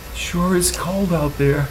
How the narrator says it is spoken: said nervously

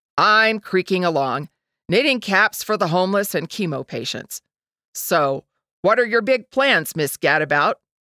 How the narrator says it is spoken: Trudy chuckled

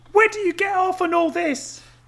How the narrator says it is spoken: Jay asked furiously

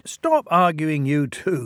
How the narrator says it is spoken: laughed the drivers

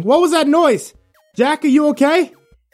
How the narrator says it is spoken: O'Brien ... yelling

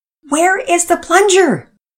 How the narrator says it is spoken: Daddy shouted above the mayhem

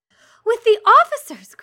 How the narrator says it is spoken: cried Lydia

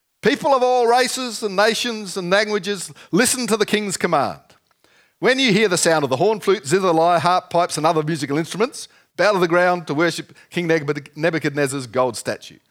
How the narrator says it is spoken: a herald shouted out

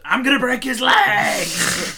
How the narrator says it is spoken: He screams

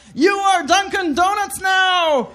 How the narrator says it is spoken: yell

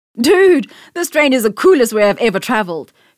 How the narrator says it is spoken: Debu exclaimed, excited at the sudden speed

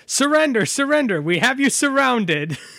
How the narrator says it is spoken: just yelling

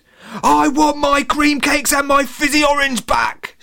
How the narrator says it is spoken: she screamed

